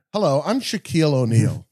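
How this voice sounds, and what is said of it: Imitates another person's voice. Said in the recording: “That's my impression”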